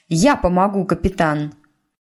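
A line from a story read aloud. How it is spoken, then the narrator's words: Resolute announcement. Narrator (Russian): не менее решительным голосом объявила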